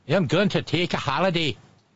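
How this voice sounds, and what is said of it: Bad put-on Scottish accent. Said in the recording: “My bad Scottish accent.”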